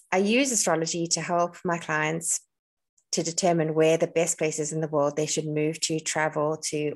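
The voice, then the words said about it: South African accent. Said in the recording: “if you're listening and you recognize my accent, I'm South African.”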